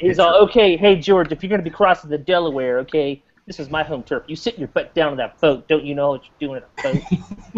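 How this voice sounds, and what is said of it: Imitates another person's voice. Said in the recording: “That's my Gary impression. That's my Gary.”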